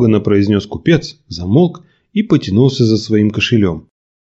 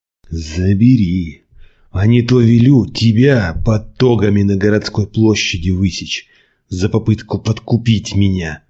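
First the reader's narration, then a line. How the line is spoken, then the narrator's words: Hissed through teeth. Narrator (Russian): сквозь зубы прошипел Николай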